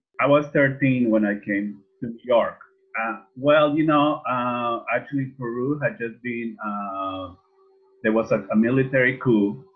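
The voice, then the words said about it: Peruvian Spanish accent in English. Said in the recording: “you're from Peru. ... You can still hear my accent after 45 years of living here.”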